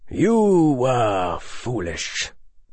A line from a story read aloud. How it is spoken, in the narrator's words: the defense professor said quietly